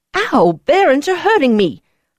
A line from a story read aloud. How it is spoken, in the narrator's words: I snapped